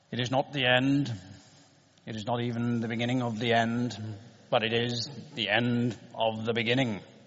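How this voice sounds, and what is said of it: Winston Churchill impression. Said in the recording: “said Winston Churchill ... it was a particularly good impression. I've been practicing it in the mirror all afternoon.”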